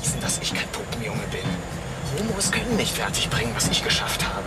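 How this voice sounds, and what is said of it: Whispered conversation. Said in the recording (German): “geflüsterte Unterhaltung”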